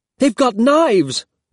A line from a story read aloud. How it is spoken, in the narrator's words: one of them shouted